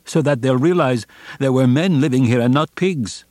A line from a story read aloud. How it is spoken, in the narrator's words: he cried